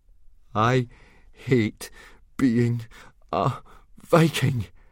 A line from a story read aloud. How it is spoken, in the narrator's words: panted Fishlegs to Hiccup